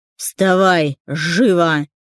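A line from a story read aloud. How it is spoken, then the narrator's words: Angry bark. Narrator (Russian): рявкнул зло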